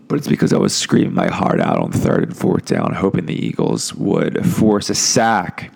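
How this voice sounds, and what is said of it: Hoarse, cracking, strained voice. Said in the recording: “I apologize for my voice. I can hear it now. I'm breaking. I sound like a fucking toad.”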